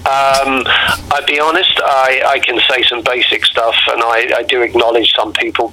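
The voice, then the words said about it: London English accent. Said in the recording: “I was from London ... I don't want to lose my accent”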